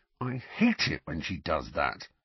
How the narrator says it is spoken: grumbled Ron

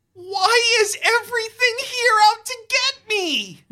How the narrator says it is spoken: You wail

